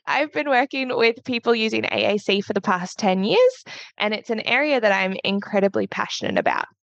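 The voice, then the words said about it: Australian accent. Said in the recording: “I am a certified practicing speech pathologist from Australia... I probably sound really weird to you guys with my accent”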